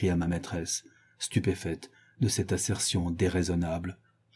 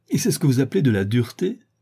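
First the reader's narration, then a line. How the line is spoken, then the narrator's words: Laughing. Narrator (French): dit Catherine en riant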